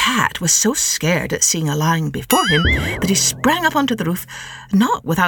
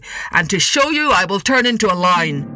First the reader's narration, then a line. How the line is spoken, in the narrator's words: said the ogre gruffly